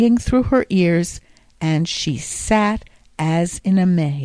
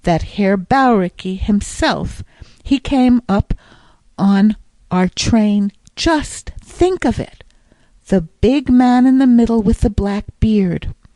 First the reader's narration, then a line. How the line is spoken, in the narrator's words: she exclaimed breathlessly